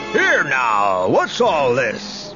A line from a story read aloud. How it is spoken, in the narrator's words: bellowed a voice